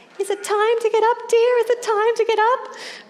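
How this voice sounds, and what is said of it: Yelling confused old lady voice. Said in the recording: “a little old lady who was very confused, and every half an hour she would yell out”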